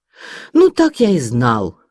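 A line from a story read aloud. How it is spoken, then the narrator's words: Exclaimed. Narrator (Russian): воскликнул он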